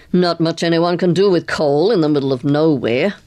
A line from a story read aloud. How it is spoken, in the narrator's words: growled Carstairs